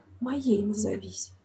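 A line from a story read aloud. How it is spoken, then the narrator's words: Whispering. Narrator (Russian): Он добавил шепотом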